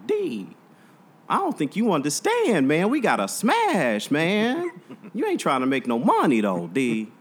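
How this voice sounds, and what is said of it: Imitates another person's voice. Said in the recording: “RJ, the guy that ran the studio, he was like ... That's exactly how he talked ... impersonating people”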